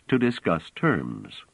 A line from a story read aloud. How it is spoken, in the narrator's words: said Trevise calmly